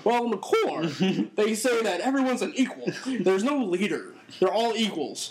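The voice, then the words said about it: Poor Michael Cole impression. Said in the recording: “that your Michael Cole impression? ... It's terrible.”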